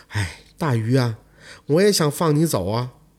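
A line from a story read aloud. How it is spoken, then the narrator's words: Sighing. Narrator (Chinese): 长生看着这大鱼，叹了口气说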